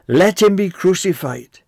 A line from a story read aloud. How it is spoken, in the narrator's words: they cried out all the more, saying